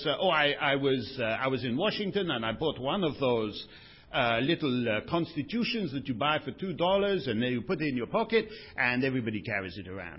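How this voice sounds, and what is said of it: Stereotypical put-on French accent. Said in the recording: “when I do a stereotypical French accent, I'm just mocking Monsieur Giscard, who has a very exquisite Gallic hauteur”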